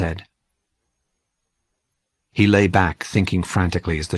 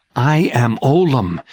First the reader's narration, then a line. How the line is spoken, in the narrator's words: he said again